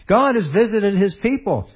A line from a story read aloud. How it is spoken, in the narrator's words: They exclaimed